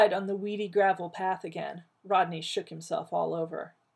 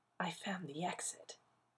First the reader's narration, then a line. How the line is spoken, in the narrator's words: he whispered